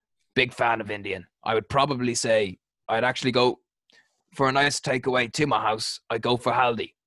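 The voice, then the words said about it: Weak put-on Australian accent. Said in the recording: “you can put away the accent now... the Australian, I've never been good in an Australian accent... the shit impression”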